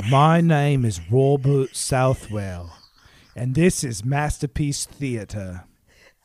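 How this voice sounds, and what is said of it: Put-on posh English gentleman accent. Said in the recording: “try to do it like a proper Queen, Ma- gentleman... I'm from Downton Abbey... How do you do an accent?”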